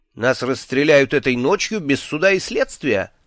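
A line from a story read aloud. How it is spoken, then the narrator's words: Snide question. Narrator (Russian): ехидно спросил я у своих надутых коллег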